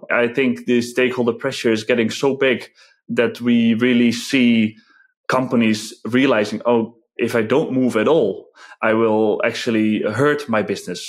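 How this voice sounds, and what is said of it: Dutch accent in English. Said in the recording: “I'm originally from the Netherlands. Maybe the accent has given that away already.”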